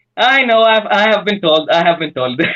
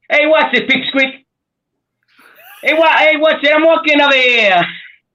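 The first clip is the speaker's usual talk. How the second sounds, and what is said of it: Put-on New York accent. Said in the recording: “Can he do a New York accent?”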